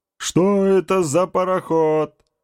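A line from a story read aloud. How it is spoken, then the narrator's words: Squealing. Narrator (Russian): Взвизгнул Механ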